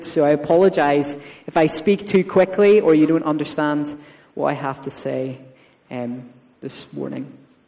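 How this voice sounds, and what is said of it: Thick Northern Irish accent, fast. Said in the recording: “I've been in Northern Ireland ... my accent gets thicker and I speak faster.”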